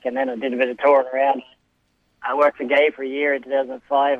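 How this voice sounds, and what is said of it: Irish accent. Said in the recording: “you've held this accent, but you're actually Australian born ... went to Ireland for a stint, and then just couldn't shrug the accent”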